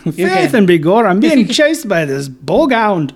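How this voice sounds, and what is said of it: Put-on Scottish-sounding accent. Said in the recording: “You know, that's a Scottish.”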